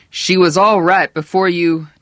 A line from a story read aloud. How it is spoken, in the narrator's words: Herb said loudly